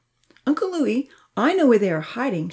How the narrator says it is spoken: she piped up

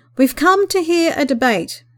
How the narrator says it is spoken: he called out loudly above the commotion

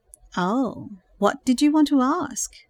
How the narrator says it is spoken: implored in a sultry voice

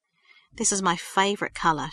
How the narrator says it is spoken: she said

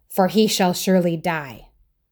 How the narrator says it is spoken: said Saul angrily

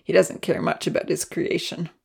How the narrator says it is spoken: mumbled to himself

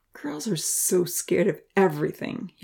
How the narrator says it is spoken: he remarked with a disdainful laugh

